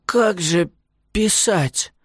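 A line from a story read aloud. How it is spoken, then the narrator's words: Weak, hoarse question. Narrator (Russian): спросил Василиса слабым, хрипловатым голосом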